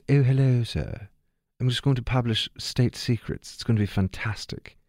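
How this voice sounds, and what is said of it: Put-on posh British accent. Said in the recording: “I got to work on my posh British accent.”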